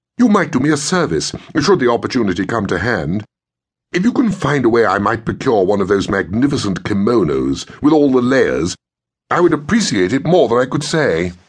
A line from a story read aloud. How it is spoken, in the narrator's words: marveled Sutton, adding eagerly